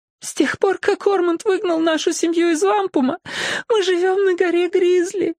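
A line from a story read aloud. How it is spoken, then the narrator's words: Sobbing. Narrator (Russian): то и дело всхлипывая ответила она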